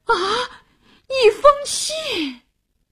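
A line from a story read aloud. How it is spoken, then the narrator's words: Exclaiming in unison. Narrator (Chinese): 夫人和卡扎文库一齐叫起来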